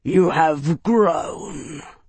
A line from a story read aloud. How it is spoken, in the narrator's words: Varg growled